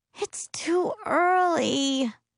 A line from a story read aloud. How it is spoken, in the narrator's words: she whines